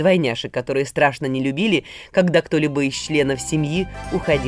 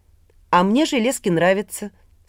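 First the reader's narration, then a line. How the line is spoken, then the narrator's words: Calm. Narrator (Russian): спокойно отвечала Вера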